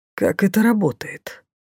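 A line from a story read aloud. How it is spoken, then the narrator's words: Low question. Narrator (Russian): вполголоса спросил маг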